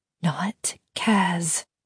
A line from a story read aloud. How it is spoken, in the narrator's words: Em said quietly